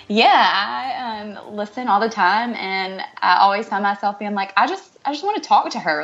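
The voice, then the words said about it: Strong Southern US accent. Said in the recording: “I knew you were from the South, but the second I heard your accent ... It's the biggest Southern draw we've had on the show”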